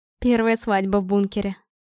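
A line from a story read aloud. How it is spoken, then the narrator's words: Rapturous whisper. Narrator (Russian): прошептала восторженно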